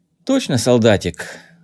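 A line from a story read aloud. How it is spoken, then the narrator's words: Sighed. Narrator (Russian): вздохнул Кей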